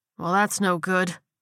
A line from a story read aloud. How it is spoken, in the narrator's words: Chad said with a sigh